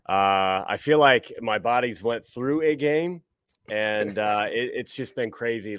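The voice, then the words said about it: Hoarse, strained voice. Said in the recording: “I lost my voice last night. It wasn't a game. I lost my voice.”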